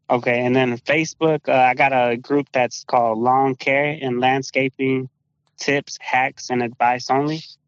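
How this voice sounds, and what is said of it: Thick Spanish accent. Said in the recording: “You got that thick Woodlands Spanish accent.”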